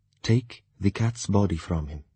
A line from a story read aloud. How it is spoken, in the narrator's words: she said quietly